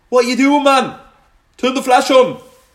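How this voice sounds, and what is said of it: Put-on Geordie accent, probably poor. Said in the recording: “That was my best Geordie accent, so it was probably terrible.”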